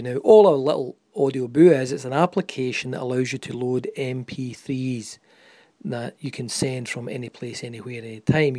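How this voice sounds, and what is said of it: Quite distinct accent. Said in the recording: “Obviously the accent is quite distinct.”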